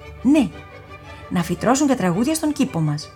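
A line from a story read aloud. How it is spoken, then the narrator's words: Mother exclaiming. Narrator (Greek): Η μαμά αναφώνησε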